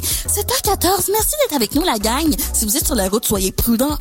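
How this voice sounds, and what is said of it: Imitates a Quebec commercial radio host. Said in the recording (French): “imitations des radios commerciales québécoises et françaises ... une imitation d'une radio commerciale québécoise”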